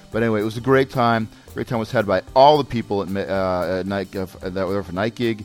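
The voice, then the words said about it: Hoarse, worn-out voice. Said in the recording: “If I sound a little different, a little hoarse ... my voice is a little shot, and there may be a little touch of con crud in there as well”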